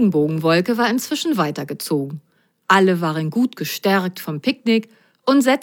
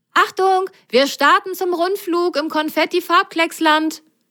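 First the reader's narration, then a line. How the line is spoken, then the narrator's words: Calling over shoulder. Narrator (German): rief Grasgrün über die Schulter seinen Passagieren zu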